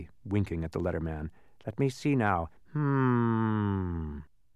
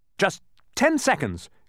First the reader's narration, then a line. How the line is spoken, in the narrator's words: cried Milo excitedly